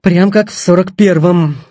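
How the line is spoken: Wry snort. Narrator (Russian): хмыкнул Медведев

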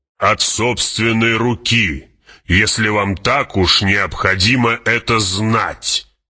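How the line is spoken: Snapping. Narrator (Russian): огрызнулся барон

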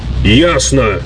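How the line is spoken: Dry professorial tone. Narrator (Russian): суховатым профессорским тоном ответил Нед

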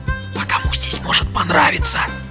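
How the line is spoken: Whispered reply. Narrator (Russian): Тоже шепотом ответил

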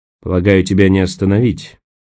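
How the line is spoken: Grumbling. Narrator (Russian): проворчал Николас

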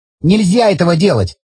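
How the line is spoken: Sharp objection. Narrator (Russian): резко возразил Саня

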